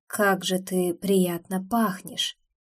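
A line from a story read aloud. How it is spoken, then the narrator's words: Soft involuntary breath. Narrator (Russian): Тихо выдохнул он вдруг, словно вовсе не собирался этого говорить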